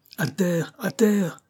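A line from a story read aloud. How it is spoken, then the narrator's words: Shouting. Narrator (French): cria Banks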